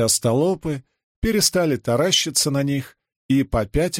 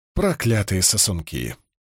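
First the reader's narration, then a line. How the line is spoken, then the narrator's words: Muttered. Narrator (Russian): пробормотал Перин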